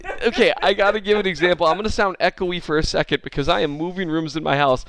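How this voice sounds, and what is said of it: Talking loudly. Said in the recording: “why are you talking so loud?”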